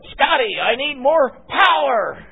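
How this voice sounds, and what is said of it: Impression of a dramatic starship captain. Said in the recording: “do my best Captain Kirk imitation”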